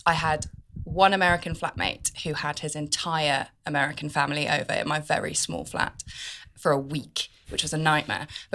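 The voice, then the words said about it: Non-American accent. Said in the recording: “You don't sound American.”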